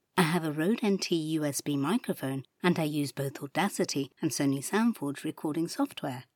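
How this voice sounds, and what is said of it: British received pronunciation accent. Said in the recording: “I have a British received pronunciation accent ... described by my commercial clients as gentle yet bright, warm and bubbly”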